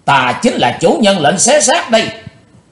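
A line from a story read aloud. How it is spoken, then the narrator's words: Hate-filled vengeful shout. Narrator (Vietnamese): máu hận cừu ở trong lòng của Chí Tôn dội lên tới tận đỉnh đầu, chàng thét lên giọng quán thù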